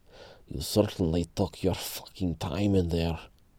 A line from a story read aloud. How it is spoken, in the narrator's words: growled Pyotr